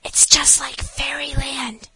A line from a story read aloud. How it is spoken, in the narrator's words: whispered the eldest little girl to the next eldest